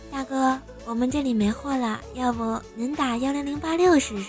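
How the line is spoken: Soft, after hesitation. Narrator (Chinese): 姑娘沉默了半分钟，柔声的跟我说

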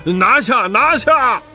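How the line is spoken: Hurried shouting. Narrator (Chinese): 那三个妖怪听见了，忙叫

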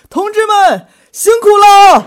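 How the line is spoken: Excited shout. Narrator (Chinese): 那个时候我特别激动，喊一句

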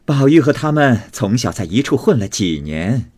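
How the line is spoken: Laughing. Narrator (Chinese): 凤姐笑道

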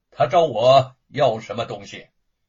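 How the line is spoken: Flat, indifferent. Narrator (Chinese): 玄明子淡淡的说

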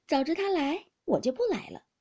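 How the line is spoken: Laughing. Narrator (Chinese): 黛玉笑道

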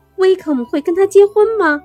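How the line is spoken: Exclaiming. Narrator (Chinese): 伊丽莎白读完信以后嚷道

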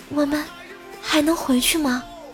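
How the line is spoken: Soft voice. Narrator (Chinese): 他轻声的对我弟说

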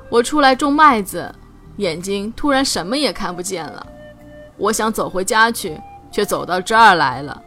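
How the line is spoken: Old woman sighing. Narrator (Chinese): 老奶奶又叹了口气说

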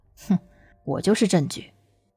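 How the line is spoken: Cold, indifferent sneer. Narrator (Chinese): 自家表哥冷笑了一声，声音淡漠的道

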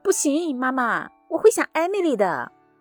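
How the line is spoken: Protesting children shouting. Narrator (Chinese): 他们俩一听就不干了，冲着我嚷嚷

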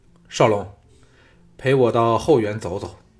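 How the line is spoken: Deep, grave voice. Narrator (Chinese): 徐仙沉声说

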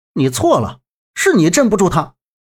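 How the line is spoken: Disdainful. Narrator (Chinese): 周震一脸嫌弃的说道

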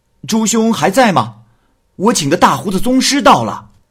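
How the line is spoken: Loud shout from outside. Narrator (Chinese): 门外，朱二蛋大声的叫道

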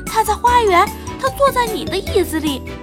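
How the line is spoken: Bleating small child. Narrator (Chinese): 最小的孩子咩咩叫着说

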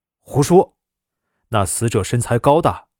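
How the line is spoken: Angry. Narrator (Chinese): 邹新丁怒道

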